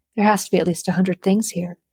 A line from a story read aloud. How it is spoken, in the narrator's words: she muttered in shock